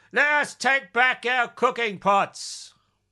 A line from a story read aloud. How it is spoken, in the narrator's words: he yelled